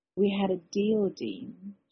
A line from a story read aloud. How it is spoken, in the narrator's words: she said softly